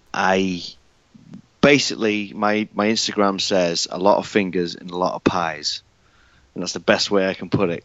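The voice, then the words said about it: British accent. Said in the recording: “I'm from the UK. You can tell by my accent.”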